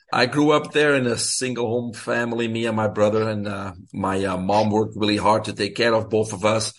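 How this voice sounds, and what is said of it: Belgian accent. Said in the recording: “Most of your listeners probably can recognize an accent. I'm originally from Belgium”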